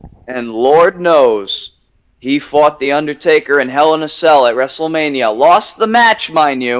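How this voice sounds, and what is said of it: Usual voice. Nothing is said of it.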